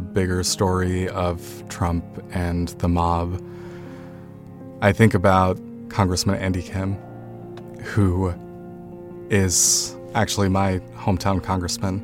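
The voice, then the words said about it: Emotional, choked-up voice. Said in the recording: “Sorry, I don't know why I'm getting emotional.”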